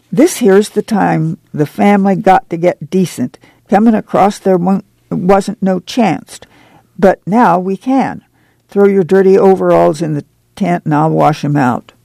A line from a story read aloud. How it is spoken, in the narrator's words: Ma cried